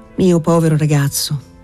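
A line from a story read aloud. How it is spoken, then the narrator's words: Deeply sympathetic tone. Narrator (Italian): disse il canonico in tono talmente partecipe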